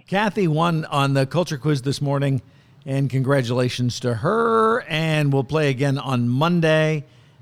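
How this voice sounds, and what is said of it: Hoarse, fading voice. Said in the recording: “I'm completely losing my voice on a Friday”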